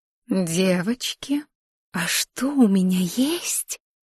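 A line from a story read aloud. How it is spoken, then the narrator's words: Whisper. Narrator (Russian): прошептала она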